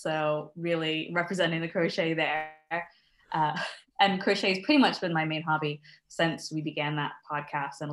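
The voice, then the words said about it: American accent. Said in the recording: “I'm originally from the States, as you can probably tell from my accent. ... You do not have a Scottish accent? ... No.”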